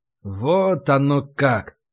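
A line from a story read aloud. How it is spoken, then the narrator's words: Drawling. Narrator (Russian): протянул я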